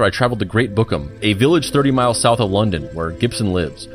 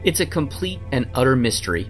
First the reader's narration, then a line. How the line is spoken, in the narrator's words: With a slight stammer, Gibson said